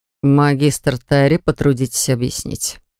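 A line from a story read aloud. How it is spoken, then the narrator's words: Through gritted teeth. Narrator (Russian): сквозь зубы произнес глава попечительского совета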